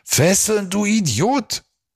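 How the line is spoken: Scream. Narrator (German): schrie Silvio

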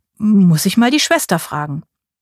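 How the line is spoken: Stammering. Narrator (German): stammelte ich

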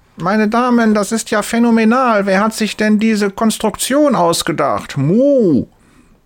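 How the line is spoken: Loud call. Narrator (German): Laut ruft sie

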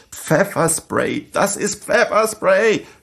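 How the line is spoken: Panicked screaming. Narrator (German): Wir hielten uns die brennenden und tränenden Augen zu und schrien panisch

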